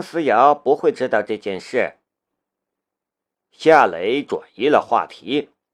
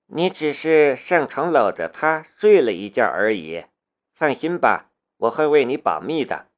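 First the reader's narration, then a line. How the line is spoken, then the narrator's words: Flat, indifferent. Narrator (Chinese): 龙兵淡淡的道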